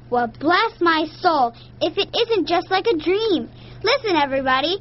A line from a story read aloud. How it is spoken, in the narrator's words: Grandma exclaimed